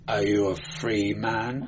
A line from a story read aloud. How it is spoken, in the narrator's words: murmured the Inquisitor